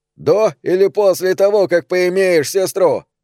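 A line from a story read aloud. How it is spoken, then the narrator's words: Shout. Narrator (Russian): крикнул Билли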